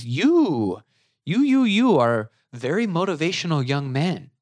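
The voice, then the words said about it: Imitated older woman, European accent. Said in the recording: “she's a little bit older and she's got, you know, a European accent.”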